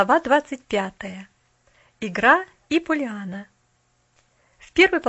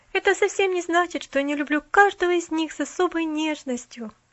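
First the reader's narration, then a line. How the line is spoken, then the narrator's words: Sighing. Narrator (Russian): вздохнула она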